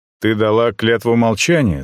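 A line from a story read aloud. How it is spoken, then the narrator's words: Plain. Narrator (Russian): спросил я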